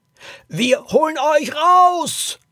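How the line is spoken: Two voices bellowing loudly. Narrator (German): brüllten Dominik und Poppy so laut sie konnten

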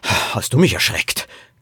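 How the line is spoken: Man gasping. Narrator (German): keuchte Poppys Vater

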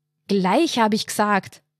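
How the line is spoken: Roar. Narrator (German): brüllte

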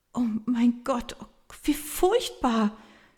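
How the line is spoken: Helpless stammer. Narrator (German): stammelt sie hilflos

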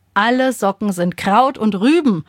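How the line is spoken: Exasperated call. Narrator (German): ruft Papa

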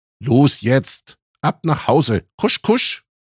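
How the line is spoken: Firm call. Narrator (German): Kirschroth rief mit fester Stimme

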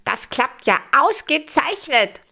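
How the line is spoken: Calling out. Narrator (German): ruft Gustav

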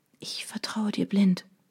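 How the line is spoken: Whispered. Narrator (German): flüsterte ich

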